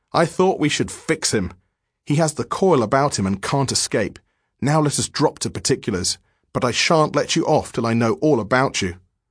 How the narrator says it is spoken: with a dry laugh and said

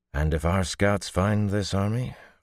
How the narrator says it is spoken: Rand replied calmly

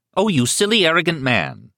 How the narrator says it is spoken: exclaimed

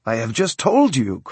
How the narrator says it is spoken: cried the flyer

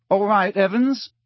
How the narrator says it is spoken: said James, and the tone of his voice was suddenly pleasant, deeper, more mature

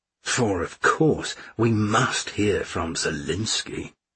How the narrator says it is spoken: muttered Mishka

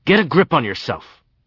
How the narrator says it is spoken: roared

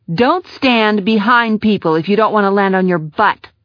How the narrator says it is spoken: snarled

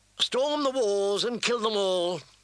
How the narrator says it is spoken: Sir Aimery said in a bored voice

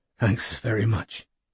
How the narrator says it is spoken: panted

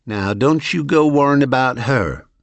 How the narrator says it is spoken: my amiable hostess had reassured me with a delicious, high-class southern drawl

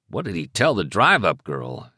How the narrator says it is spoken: Hamilton muttered

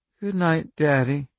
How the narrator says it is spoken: she said in a thick, sleeping voice

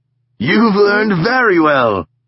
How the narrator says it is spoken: he laughed

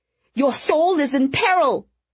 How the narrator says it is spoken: Victoria shrieked

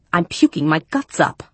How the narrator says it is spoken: I snarled

